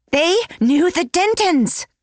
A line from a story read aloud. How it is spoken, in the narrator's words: She yelled it, almost